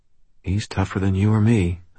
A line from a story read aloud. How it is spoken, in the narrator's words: I said quietly